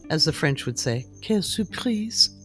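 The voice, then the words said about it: Deliberately bad French accent. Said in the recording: “No, that was not my good French accent. I was being facetious.”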